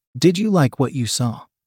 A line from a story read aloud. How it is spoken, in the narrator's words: he asked